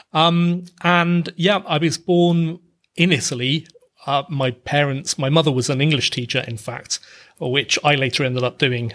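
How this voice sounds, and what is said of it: British accent. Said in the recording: “half British, half Italian, as you can hear with my British accent”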